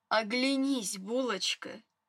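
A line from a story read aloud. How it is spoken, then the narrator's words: Tender. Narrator (Russian): нежно так сказал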